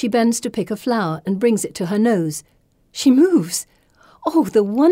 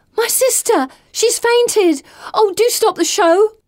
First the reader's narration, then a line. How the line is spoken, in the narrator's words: Someone shouts